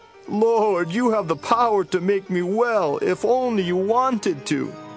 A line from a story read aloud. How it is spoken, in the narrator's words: he kneeled down to the ground in front of Jesus and begged